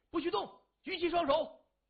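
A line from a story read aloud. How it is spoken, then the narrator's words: Several voices shouting. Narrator (Chinese): 纷纷大叫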